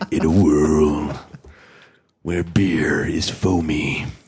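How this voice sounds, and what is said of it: Movie trailer announcer voice. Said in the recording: “My cold's almost to the point where I could probably do the movie guy voice really well.”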